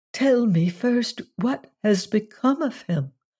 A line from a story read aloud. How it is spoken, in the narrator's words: she replied in a slightly tremulous voice